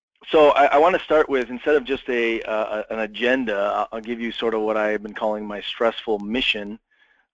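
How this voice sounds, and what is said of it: Slightly rough, strained voice. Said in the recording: “my voice is a little bit sketchy tonight”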